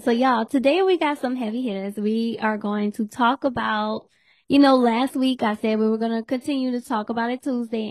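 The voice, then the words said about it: Hoarse, fading voice. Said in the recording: “I'm losing my voice if you cannot hear it. ... my voice, I'm losing my voice ... as you can hear, it sounds like I am still under the weather”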